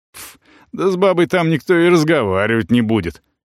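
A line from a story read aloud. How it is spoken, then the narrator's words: Scoffing snort. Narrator (Russian): хмыкнул Ербол, не сдержавшись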